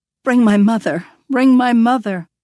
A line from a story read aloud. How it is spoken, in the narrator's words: Lourdes moans